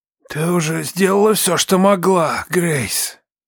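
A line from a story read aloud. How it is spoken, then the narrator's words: Hoarse old man. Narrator (Russian): хрипло сказал старик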